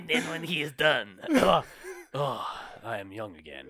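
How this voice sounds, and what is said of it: Put-on foreign accent. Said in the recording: “What is this accent?”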